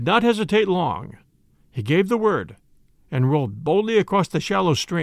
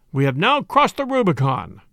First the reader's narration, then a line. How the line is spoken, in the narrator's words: he cried